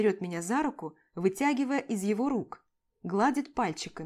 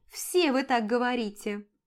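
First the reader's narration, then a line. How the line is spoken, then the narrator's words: Mocking snort. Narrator (Russian): фыркает она насмешливо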